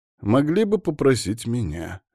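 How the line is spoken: Snorting remark. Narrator (Russian): хмыкнул Лапанья

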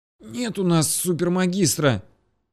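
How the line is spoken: Muffled wheeze, boy. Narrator (Russian): просипел уткнувшийся лицом в парту парнишка

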